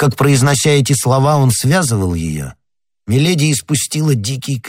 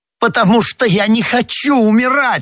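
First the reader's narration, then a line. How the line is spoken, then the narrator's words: Exclaimed while struggling. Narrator (Russian): воскликнула Миледи, пытаясь вырваться из рук палача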